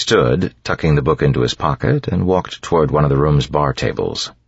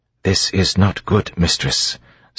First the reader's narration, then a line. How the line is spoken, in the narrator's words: Sazed said in a low tone